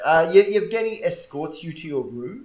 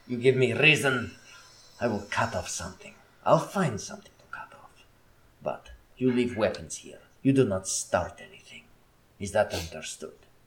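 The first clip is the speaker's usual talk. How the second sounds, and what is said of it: Growling put-on character voice. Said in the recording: “growling in your ear ... put on the Yevgeny voice”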